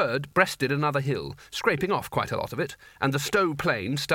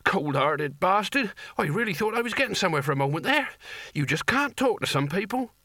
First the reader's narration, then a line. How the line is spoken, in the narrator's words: he wheezed